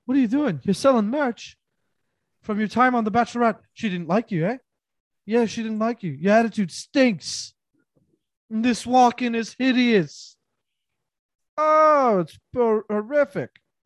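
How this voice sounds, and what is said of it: Poor imitation of another person's voice. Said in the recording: “Go-Go Ramsey should be like ... that's a terrible impression”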